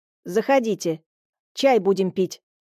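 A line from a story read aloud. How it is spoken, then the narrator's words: Stern female command. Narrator (Russian): строгим голосом приказала моя собеседница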